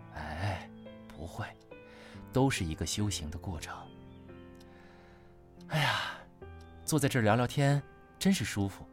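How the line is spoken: Sighing. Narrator (Chinese): 林婉叹气

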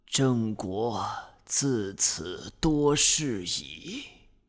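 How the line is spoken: Dying sigh. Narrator (Chinese): 临死之前丢下了这样一句感叹

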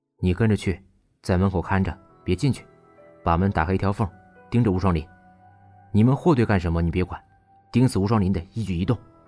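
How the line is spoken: Low-voiced instructions. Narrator (Chinese): 石俊 低声嘱咐

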